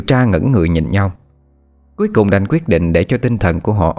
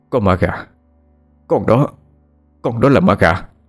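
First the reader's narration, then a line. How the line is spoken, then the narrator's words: Stammering. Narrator (Vietnamese): bố cái bích tỉnh táo nhất thì chỉ lắp bắp nói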